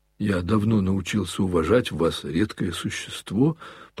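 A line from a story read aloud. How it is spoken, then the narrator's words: Confused faltering mutter. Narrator (Russian): пробормотал опять Коля, сбиваясь и путаясь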